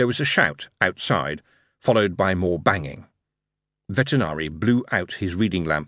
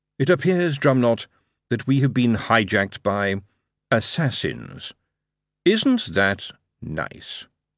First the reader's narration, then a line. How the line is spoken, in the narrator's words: Lord Vetinari calmly sighed, and said to Drumknot